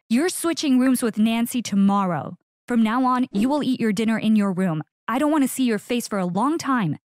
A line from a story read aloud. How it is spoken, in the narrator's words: My dad's face turned red and he screamed